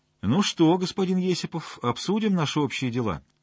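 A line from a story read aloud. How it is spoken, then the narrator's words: Cheerful. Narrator (Russian): весело сказал посетитель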